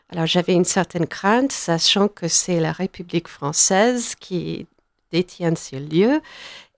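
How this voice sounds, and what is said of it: American accent speaking French. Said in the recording (French): “Toute américaine que vous soyez, que le montre votre accent.”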